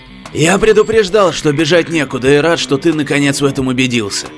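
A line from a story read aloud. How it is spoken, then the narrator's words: Hoarse, insistent. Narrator (Russian): Не сдавался хрипатый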